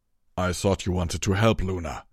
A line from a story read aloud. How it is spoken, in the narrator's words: Torado growled